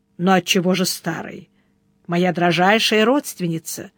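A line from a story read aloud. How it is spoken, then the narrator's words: Calm, smiling. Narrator (Russian): спокойно улыбнулся Сварог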